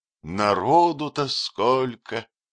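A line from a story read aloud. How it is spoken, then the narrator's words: Sighing. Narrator (Russian): вздохнул Невыразимов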